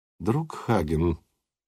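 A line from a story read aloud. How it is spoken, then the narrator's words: Musician, quiet. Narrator (Russian): негромко сказал музыкант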